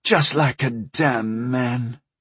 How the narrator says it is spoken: muttered

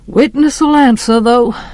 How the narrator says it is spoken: said Judge Taylor, just as wearily

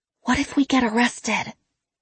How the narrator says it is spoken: one of the girls whisper

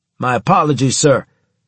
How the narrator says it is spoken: he shouted, grinning all the while

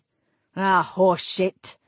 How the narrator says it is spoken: Caradoc growled

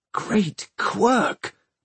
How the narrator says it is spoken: Tom gasped

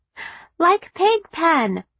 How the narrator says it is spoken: Callie cheerfully observed, too young to understand the danger

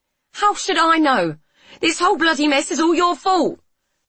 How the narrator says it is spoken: Delia cried

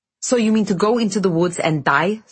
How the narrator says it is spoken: snapped Alyosha

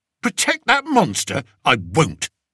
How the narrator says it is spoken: he said fiercely

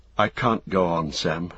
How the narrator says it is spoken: he murmured

